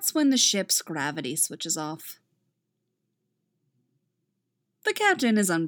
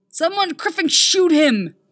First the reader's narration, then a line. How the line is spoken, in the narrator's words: the captain shouts